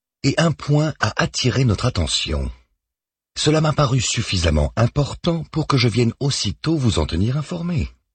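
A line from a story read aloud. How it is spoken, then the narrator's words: Calm. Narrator (French): poursuit-elle calmement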